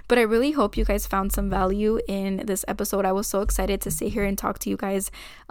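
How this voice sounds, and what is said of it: Out of breath, breathless speech. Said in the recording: “girl, I am out of breath.”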